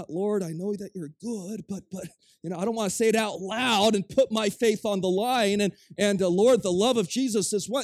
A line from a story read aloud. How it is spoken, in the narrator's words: They weren't whispering it